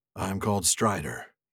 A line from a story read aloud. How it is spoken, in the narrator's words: said in a low voice